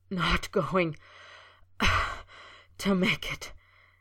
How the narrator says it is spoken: he gasped, shaking with the dagger-like pain

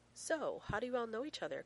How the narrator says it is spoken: Karen says brightly

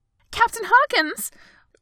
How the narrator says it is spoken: First flight attendant gasped

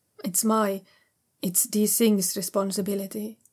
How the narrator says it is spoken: Shen Wei says calmly

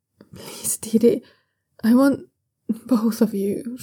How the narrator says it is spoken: Shunwei gasps

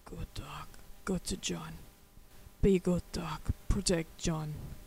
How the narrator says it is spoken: heard him mutter

